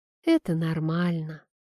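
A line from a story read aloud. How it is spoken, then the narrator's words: Soft. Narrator (Russian): мягко сказала Анна Сергеевна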